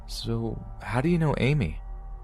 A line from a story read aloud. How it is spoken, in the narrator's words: he responded in his shaky and unflattering voice